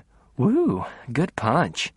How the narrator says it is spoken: One of them muttered

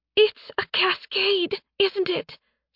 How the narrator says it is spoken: Sen whispered

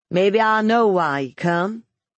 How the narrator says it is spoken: he said in the twangy voice

